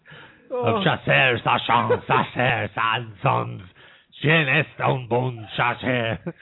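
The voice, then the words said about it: Mock French accent. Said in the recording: “Mr. Paul says I've nailed the French accent.”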